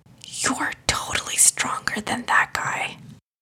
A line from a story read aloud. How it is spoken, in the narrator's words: Mehdi whispered to him in his ear